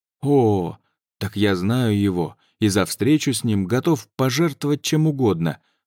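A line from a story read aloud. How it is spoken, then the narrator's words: Exclaimed. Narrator (Russian): воскликнул Балин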